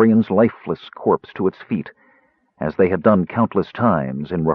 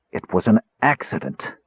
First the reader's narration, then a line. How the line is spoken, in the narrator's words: Faragus said through clenched teeth